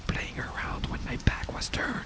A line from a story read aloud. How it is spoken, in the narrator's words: the ghost whispered